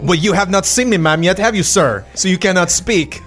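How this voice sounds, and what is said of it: Inconsistent put-on French accent. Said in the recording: “By my accent and my hat? ... My accent is quite inconsistent.”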